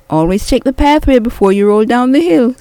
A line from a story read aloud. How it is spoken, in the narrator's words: Squeaky Rat taunted